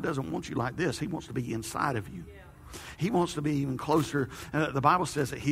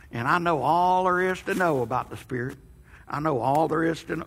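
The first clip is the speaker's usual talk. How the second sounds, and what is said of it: Put-on old man voice. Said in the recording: “old man voice”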